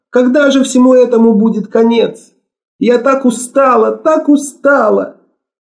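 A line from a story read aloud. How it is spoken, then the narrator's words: Sobbing, exhausted woman. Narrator (Russian): ее слабое тело сотрясалось от рыданий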